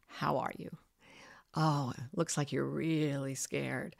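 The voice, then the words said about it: Low, calm late-night DJ voice. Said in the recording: “bring your low DJ, late night DJ voice.”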